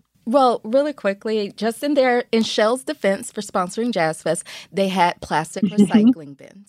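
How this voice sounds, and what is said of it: Sarcastic delivery. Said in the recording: “you know I'm being sarcastic”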